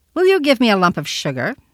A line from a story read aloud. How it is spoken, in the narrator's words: he asked, in a sharp, hard little voice, a voice immature, and yet somehow not young